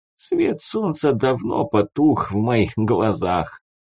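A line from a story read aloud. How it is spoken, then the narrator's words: Laughing, joking. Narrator (Russian): снова рассмеялась, словно это была шутка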